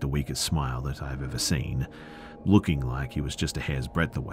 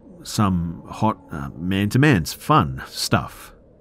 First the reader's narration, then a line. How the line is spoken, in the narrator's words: He stammered out